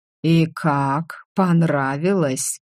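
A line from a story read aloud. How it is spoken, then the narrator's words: Venomous hiss. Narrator (Russian): ядовито прошипел дракон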